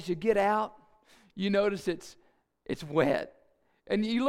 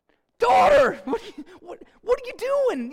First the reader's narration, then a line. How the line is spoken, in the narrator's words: being yelled out